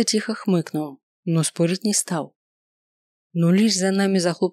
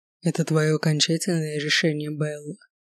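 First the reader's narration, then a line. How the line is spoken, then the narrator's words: Quiet, slightly hoarse question. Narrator (Russian): спросил он тихим, немного хриплым голосом, от которого мне по спине побежали мурашки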